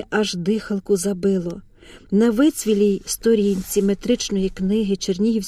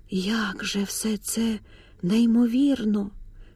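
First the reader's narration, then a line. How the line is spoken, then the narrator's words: Whisper. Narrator (Ukrainian): прошепотіла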